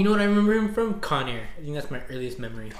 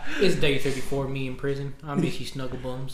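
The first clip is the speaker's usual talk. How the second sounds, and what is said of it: Exaggerated fake Southern US accent. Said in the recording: “he has a really fake southern accent”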